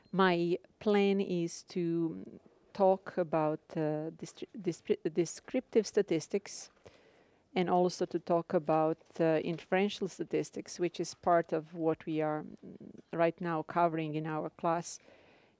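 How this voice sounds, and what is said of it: Slavic Croatian accent. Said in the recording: “If you wonder where my accent comes from, I'm originally from Croatia, so it's Slavic accent”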